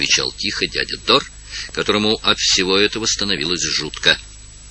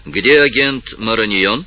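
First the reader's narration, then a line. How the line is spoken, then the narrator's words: Loud question. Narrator (Russian): спросил Олимпио так громко, чтобы могли расслышать Грилли и Гот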